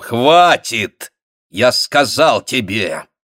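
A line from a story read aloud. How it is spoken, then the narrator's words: Quiet, irritated. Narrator (Russian): произнес он тихим, раздраженным голосом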